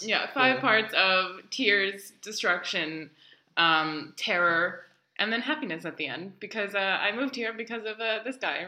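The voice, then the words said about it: New York American accent. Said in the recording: “as you can tell by my accent, I am an American from New York City”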